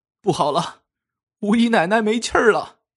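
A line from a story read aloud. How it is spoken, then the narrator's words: Anguished shriek. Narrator (Chinese): 一个老妈子惨叫一声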